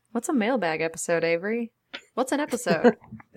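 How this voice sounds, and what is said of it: Weird put-on voice. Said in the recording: “That's a weird voice”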